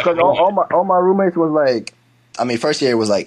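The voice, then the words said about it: Slangy Southern American accent. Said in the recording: “you have a slang kind of southern accent to your to your voice ... does not sound like I would think that he would sound”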